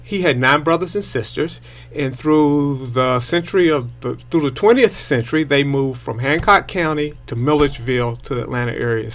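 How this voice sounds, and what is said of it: Georgian Southern US accent. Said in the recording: “I noticed his accent. ... It seemed a little more Georgian than Tennessee or anything like, or Kentucky or anything like that.”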